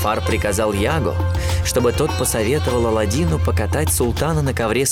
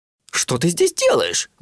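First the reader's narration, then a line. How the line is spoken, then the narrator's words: Exclamation. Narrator (Russian): воскликнул джинн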